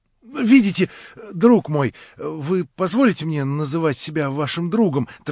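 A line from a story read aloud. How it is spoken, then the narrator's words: Hurried. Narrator (Russian): торопливо начал Степан Трофимович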